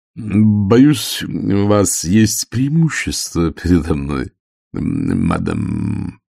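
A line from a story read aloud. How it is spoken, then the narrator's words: Mumble. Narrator (Russian): пробормотал он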